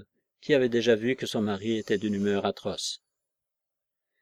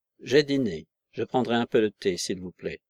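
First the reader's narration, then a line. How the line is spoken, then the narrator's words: Curt, gloomy reply. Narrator (French): répondit Lydgate sèchement, l'air toujours sombre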